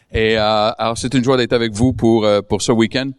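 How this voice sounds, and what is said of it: French with a non-local accent. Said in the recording (French): “Alors, oui, j'ai un accent.”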